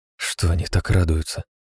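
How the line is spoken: Nervous whisper. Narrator (Russian): прошептала Кара нервно

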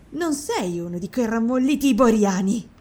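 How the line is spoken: Woman exclaiming. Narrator (Italian): esclamò la donna

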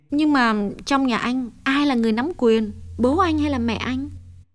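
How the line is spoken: Happy smiling question. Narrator (Vietnamese): Hồng càng thấy vui trong lòng, nàng mỉm cười hỏi thêm

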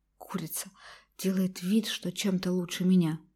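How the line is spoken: Angry hiss under breath. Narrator (Russian): злилась, шипела про себя младшая сестра Лазарева

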